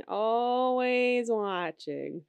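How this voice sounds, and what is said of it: Terrible Roz impression. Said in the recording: “I do a terrible Roz impression.”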